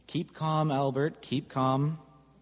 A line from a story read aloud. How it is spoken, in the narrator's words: calmly say